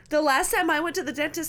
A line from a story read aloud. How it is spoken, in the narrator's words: I cried